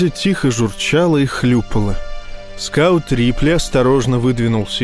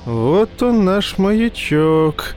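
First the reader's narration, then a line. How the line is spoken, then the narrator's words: Cooing. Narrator (Russian): проворковал Файн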